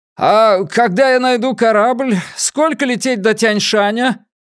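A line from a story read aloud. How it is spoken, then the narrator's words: Shouted, lost in waves. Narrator (Russian): Энея что-то прокричала в ответ, но ее голос затерялся в плеске волн о борта моей маленькой лодки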